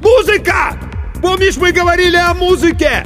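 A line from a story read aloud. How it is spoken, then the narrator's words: Shouting with all strength. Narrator (Russian): Иван, что было мочи, крикнул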